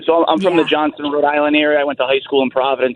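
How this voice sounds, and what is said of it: Rhode Island accent. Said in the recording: “I can't miss that accent... there was a word in there that I'm like, oh, I hear it... Once you get to age 21 in Providence, you can never shake the accent”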